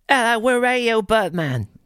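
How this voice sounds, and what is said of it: Put-on Australian accent. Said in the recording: “Is that your Australian accent?”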